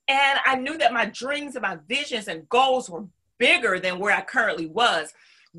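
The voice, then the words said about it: Southern US accent. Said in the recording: “because I'm from the South, my accent always, you know, the topic of conversation”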